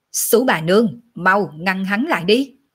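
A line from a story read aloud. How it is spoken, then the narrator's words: Loud shout. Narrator (Vietnamese): Tiểu Lôi lập tức lớn tiếng quát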